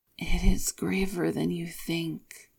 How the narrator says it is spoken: Lan Xichen sighs

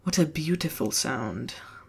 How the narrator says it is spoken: Barak whispered against his lips

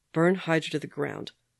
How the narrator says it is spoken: Bucky said, flatly

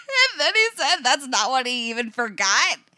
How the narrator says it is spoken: she says again, laughing

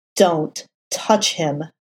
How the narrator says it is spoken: Matt snarled, spitting out a mouthful of blood

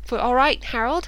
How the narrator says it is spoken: Mike asked breathlessly as he jogged on

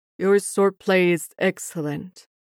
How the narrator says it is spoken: Lan Wangji says stiffly

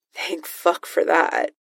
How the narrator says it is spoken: the voice mutters

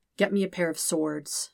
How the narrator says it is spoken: Zuko says quietly

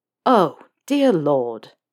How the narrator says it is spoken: Snape sighs

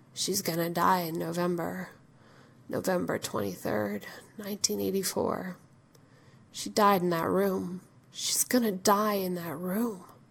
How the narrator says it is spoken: John says quietly

